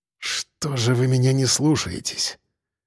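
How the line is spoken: Breathed out. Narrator (Russian): выдохнул Сальников

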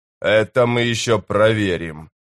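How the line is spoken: Growl. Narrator (Russian): прорычал Корбаладом

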